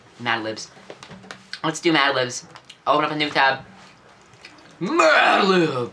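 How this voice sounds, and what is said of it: Yelling loudly. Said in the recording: “I'm yelling a lot.”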